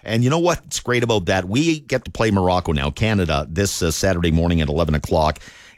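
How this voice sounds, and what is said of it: Strained, tired voice. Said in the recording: “my voice is a little bit stretched, and I'm a little tired today”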